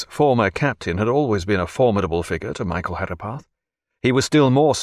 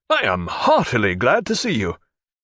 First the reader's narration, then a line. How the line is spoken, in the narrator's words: cried Jack